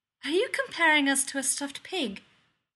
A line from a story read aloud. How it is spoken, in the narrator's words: Hermione asks, with a hint of laughter in her voice